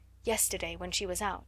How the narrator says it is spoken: said

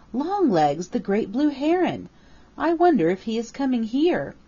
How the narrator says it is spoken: exclaimed Peter

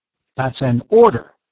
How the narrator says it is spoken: snapped the officer

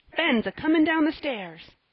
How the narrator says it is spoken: screamed Joel, at that moment running in

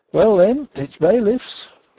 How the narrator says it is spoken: said Denry, but still cheerfully

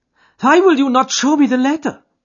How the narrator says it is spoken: cried

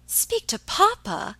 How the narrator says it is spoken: exclaimed Alicia

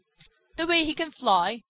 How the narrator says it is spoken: sputtered Skimmer

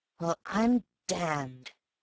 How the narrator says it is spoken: whispered the real man

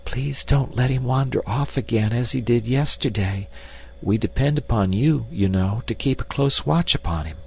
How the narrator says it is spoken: she whispered

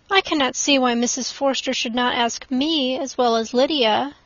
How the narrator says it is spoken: said she

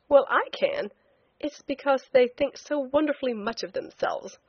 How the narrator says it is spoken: I said with a laugh

